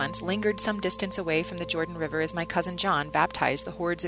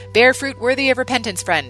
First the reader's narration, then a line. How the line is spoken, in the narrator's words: John shouted after the man